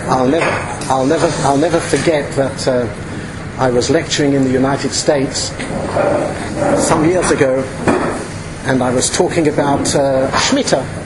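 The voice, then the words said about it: British accent. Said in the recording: “I speak with a British accent.”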